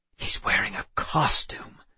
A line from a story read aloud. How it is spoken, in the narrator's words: I whispered to Emma